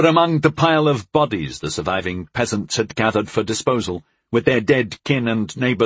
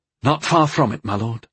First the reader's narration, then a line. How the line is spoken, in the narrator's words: I answered, breathlessly, my heart sinking a foot a minute